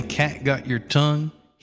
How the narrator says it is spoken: He laughed a little

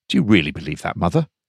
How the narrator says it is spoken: Peter asked quietly

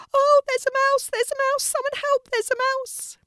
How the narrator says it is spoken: a lady started shrieking

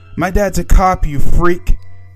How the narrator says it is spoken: Shala yells

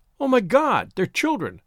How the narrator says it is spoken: She cried out, totally unprepared for the sight

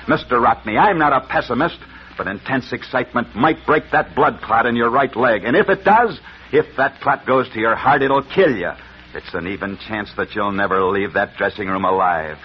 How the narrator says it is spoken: Angrily, the doctor said to him

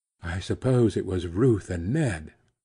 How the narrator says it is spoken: she said in a low voice, as though he had suddenly touched on something grave

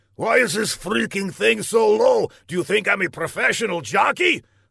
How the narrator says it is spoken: Laszlo grunted

